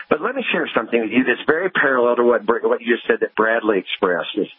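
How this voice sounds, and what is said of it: Southern US accent. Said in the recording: “as you can probably tell from my accent, I was born and raised in the South”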